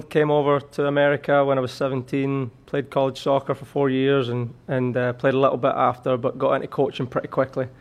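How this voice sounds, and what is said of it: Slight Scottish accent. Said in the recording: “still got a little bit of the Scottish accent”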